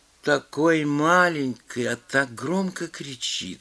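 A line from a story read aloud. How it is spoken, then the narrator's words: Sleepy woman's voice. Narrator (Russian): сказала женщина сонным голосом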